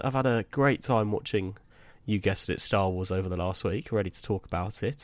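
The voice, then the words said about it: Voice slightly affected by a cold. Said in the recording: “as people might be able to tell from my voice, got a little bit of a cold”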